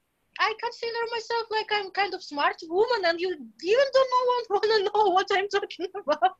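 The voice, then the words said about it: Russian accent. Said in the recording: “It's like my Russian accent. ... No, I can hear it.”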